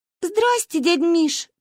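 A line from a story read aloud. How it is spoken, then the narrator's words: Squeaked. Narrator (Russian): пискнула я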